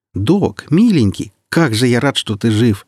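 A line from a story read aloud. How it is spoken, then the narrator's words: Exclaiming. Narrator (Russian): воскликнул Сочинский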